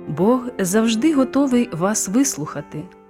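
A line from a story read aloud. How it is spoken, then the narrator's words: Plain. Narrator (Ukrainian): сказав проповідник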